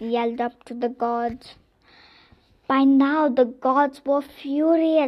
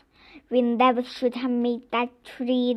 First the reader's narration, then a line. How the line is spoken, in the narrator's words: muttered to themselves